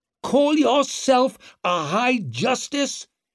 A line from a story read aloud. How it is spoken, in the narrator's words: He roared at Bruckle